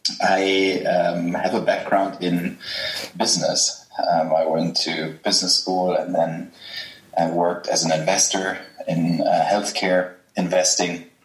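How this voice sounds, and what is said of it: German accent. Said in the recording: “I'm German, as people will realize from my accent.”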